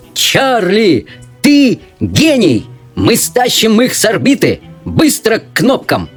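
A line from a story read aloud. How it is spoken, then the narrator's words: Shouting. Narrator (Russian): закричал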